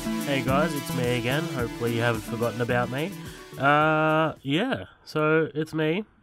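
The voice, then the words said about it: Broad Australian accent. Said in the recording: “a dumb fucking bogan Australian”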